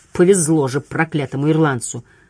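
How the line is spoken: Hiss. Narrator (Russian): прошипел он

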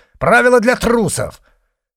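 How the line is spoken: Shouted. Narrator (Russian): Мурин крикнул

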